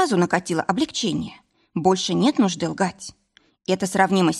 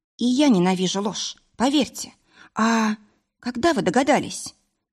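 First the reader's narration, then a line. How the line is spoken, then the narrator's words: Calm, almost indifferent question. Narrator (Russian): спросила я спокойно и почти равнодушно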